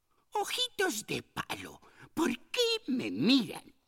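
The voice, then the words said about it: Angry character voice. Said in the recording (Spanish): “dijo con acento enojado”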